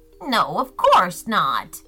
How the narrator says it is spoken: grumbled Gretchen, feeling embarrassed

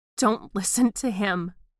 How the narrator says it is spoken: I begged

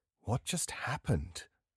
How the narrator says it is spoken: I asked quietly

